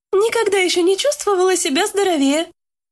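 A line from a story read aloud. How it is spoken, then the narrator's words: Cheerful reply. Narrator (Russian): бодро отозвалась Лика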